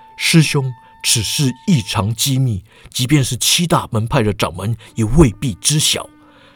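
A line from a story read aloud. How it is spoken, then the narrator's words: Lowered voice. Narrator (Chinese): 毛笃信压低声音说道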